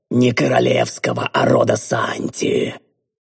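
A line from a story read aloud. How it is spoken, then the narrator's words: Hissing, calming down. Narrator (Russian): прошипел Квинтес, постепенно успокаиваясь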